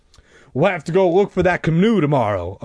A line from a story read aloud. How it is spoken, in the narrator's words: Uncle Al snapped